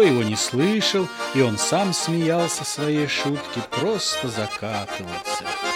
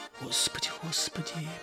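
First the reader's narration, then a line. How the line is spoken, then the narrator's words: Elderly woman whispering. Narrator (Russian): прошептала пожилая баба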